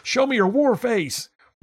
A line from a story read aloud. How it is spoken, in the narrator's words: yell